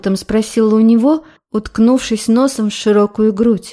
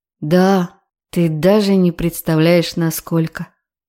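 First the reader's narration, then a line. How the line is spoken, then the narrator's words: Quiet. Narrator (Russian): Тихо ответил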